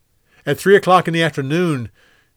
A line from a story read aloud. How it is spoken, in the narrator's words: Jesus cried out